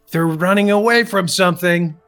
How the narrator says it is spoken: I shout

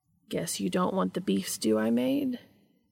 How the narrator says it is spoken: Cass asked teasingly

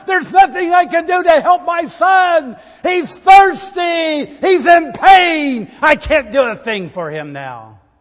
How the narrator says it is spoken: she cried

